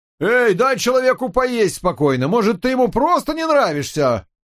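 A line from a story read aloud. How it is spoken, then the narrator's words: Vendor shouting. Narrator (Russian): продавец крикнул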